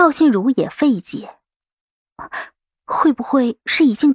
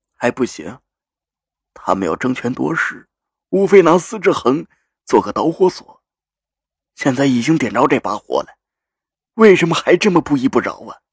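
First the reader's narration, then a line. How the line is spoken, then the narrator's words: Low, somber. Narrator (Chinese): 赵心如的声音有些低沉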